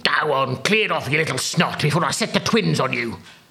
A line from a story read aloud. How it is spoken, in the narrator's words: snapped Freakfinder